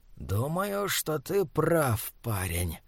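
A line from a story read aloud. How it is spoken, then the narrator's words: Hissing. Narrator (Russian): прошипел он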